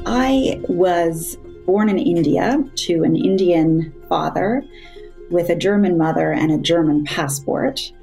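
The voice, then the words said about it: American-influenced accent. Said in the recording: “I then gained an American stepfather, hence my accent”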